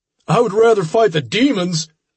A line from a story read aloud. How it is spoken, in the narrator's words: someone shouted